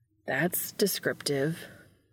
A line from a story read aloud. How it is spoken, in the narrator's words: Sam muttered derisively